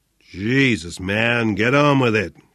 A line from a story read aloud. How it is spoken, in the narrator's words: grumbled Flynn